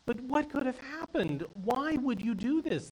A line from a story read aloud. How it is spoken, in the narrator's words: the son pleaded